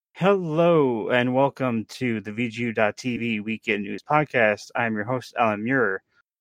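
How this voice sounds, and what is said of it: Announcer-style shoutcasting voice. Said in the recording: “announcer voice ... Your shoutcasting voice”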